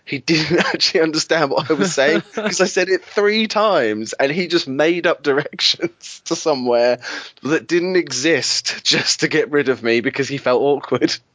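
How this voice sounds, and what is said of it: Clear English accent. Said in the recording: “a very clear English accent ... My accent is completely English”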